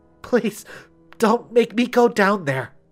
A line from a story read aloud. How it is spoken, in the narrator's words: she whimpered